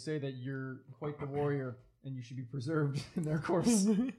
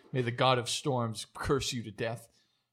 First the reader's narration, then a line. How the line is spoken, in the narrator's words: They kind of angrily say